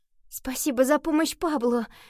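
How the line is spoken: Grateful exclamation. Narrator (Russian): с благодарностью воскликнула Рия

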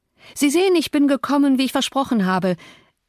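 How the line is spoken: Forced cheerful call. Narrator (German): rief ich mit künstlicher Heiterkeit

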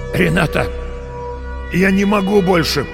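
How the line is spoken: Hoarse rasp. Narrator (Russian): прохрипел он

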